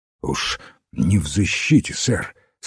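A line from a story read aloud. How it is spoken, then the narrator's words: Hoarse half-whisper. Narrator (Russian): сказал он хрипловатым полушепотом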